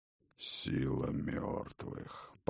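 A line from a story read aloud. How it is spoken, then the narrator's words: Muttering. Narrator (Russian): пробормотал Один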